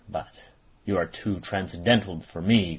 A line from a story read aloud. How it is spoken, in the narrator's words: growled Ossipon with moody concern